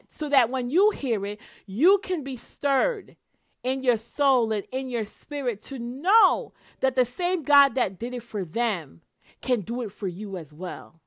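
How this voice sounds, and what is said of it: Excited voice. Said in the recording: “hear the excitement in my voice.”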